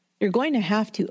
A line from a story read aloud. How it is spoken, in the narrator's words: Opal replied